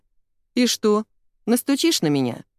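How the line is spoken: Snorting. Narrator (Russian): Он хмыкнул

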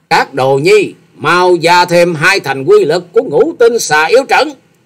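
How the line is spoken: Furious ringing shout. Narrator (Vietnamese): Xà Hà tiên tử càng thêm giận dữ thét vang

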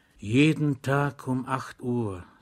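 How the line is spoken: Whisper. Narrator (German): sagte der Zivilist flüsternd zu dem Soldaten

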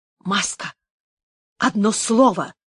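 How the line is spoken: Whisper. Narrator (Russian): шепнул он

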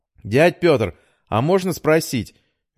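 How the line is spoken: Cheerful. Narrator (Russian): весело произнес Митя

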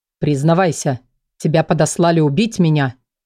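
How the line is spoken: Sharp speech. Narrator (Russian): резко произнес он

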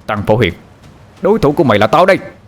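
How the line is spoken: Shout. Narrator (Vietnamese): Anh hét lên

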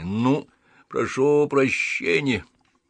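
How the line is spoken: Forced out with hatred. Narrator (Russian): Выдавил с ненавистью

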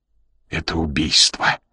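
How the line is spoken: Strained, choked voice. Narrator (Russian): произнес он сдавленным голосом

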